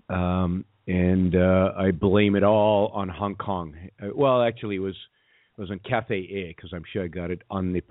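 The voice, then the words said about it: Hoarse voice from a cold. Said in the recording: “I'm suffering from a pretty bad cold. So that's why my voice is a little off. It might crack at some decibels ... I might have to stop for a moment to cough”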